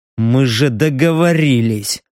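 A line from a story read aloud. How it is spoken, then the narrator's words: Grumbled. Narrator (Russian): буркнул Стриж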